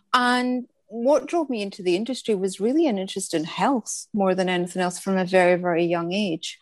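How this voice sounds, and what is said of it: Scottish accent. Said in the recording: “as you can probably hear by the accent, I'm from Scotland”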